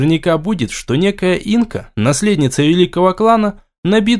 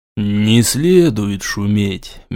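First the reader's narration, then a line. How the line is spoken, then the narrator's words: Gentle soothing. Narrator (Russian): мягко угомонил ее Артем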